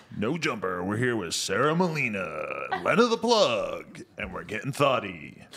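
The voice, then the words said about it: Announcer-style radio voice. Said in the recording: “Do your radio voice again. Announce that she's here.”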